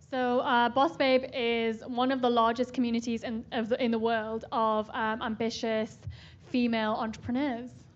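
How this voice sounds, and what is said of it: Newcastle English accent. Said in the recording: “I can tell from your accent you're not from SF ... I'm from Newcastle, right near Scotland in the UK.”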